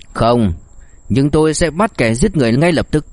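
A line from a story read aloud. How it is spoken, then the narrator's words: Cold, cigarette in mouth. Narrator (Vietnamese): Đông Tước ngậm điếu thuốc, một tia lạnh lùng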